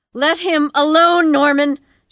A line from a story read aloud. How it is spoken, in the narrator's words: she screamed